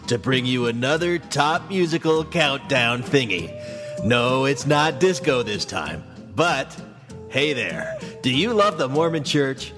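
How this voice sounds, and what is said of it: Bad Casey Kasem radio announcer voice. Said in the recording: “doing a bad Casey Kasem slash Will Forte Saturday Night Live sports guy slash radio announcer voice”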